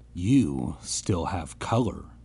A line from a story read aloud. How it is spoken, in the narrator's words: a girl murmured